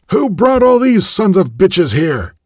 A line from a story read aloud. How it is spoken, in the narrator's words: he shouted